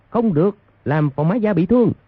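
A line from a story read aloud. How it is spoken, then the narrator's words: Loud shout. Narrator (Vietnamese): quân phía trước quát lớn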